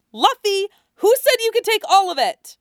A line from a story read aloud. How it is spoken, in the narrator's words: Nami shouted